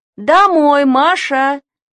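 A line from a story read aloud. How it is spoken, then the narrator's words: Father shouting. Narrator (Russian): крикнул Машин папа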